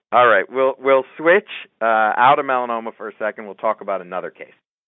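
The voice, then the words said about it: Smooth radio-style voice. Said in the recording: “You actually have a great radio voice”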